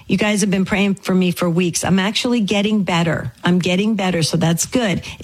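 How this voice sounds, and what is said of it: Raspy, strained voice. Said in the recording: “a little bit of a continued kind of a raspy voice of mine”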